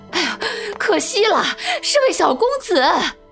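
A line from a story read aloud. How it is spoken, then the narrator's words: Midwife's loud clamoring cry. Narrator (Chinese): 产婆大呼小叫地喊着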